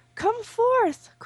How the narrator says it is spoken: cried out a hoary man

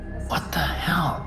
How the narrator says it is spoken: said, whispering the words in awe

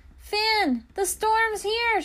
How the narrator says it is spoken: shouted

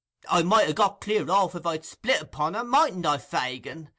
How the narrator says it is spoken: angrily pursued the poor half-witted dupe

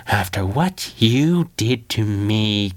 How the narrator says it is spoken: Kid Chaos breathed through gritted teeth

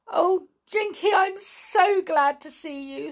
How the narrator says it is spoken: sobbed the poor doll

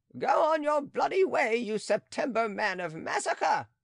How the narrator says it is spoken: cried Aunt Angelique

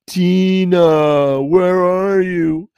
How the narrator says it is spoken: Freddy, in his groping blindness, called out

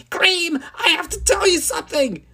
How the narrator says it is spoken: screamed, letting out all his nervousness so he could be smooth like a movie star

